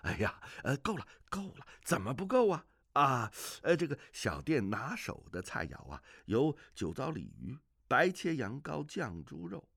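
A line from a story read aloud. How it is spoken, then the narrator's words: Hurried, ingratiating smile. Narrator (Chinese): 酒保连忙陪着笑说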